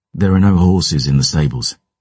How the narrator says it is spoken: I sighed

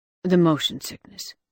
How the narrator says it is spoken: he muttered

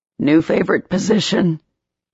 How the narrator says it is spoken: Trey groaned

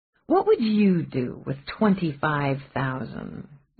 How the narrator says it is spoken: Mallory purred it

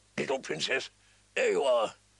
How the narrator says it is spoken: said in his gruff, kind voice

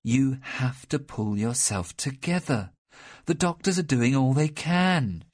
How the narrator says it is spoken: she said, trying to make her voice as soothing as possible, without taking the force out of what she said

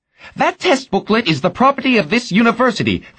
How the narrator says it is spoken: Ferraro yelled

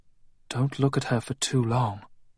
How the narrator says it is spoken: she said softly

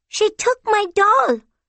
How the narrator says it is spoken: Rabia shrieked

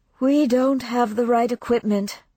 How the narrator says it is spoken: Maddie said, sighing

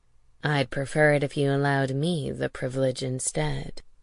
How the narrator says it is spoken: Theron said softly

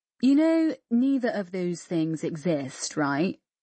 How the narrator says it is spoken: said Fleur, slowly

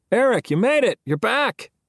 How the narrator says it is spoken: everybody called out at once

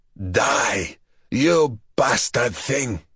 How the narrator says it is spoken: he snarled

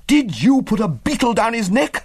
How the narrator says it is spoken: I cried

